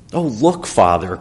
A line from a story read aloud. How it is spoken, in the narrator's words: cried Zora, with her footsteps echoing off the stone walls